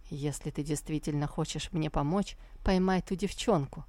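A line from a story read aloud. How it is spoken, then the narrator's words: Plain. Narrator (Russian): ответил Тантайцзинь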